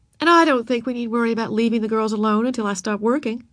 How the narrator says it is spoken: said Mrs

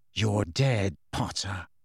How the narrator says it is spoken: he said in a low voice

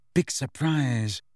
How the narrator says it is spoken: said Hermione under her breath

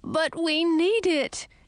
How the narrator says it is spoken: Edric wailed

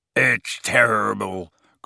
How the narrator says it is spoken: growled Hagrid into his beard

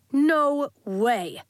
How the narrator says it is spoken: snapped a flare parent

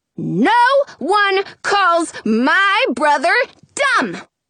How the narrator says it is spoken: I shout

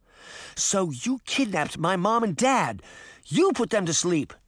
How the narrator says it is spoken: Daphne cried

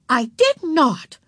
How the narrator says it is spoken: said Beezus indignantly

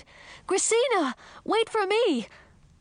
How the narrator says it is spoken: I shouted

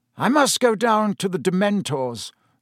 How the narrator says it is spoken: said Dumbledore

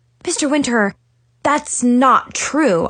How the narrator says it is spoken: stammered

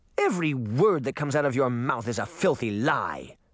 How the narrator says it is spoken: the princess snapped

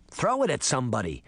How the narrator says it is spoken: Sabrina said impatiently

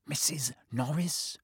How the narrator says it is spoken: breathed Ron

